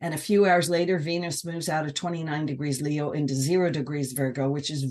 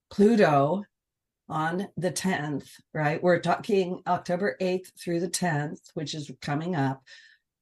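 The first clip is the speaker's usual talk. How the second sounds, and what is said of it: Slow deliberate speech. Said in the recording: “say it slowly.”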